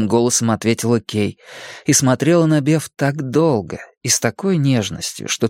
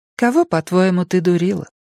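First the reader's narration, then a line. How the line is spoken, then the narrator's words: Even, level voice. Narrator (Russian): спросила Кей все тем же ровным голосом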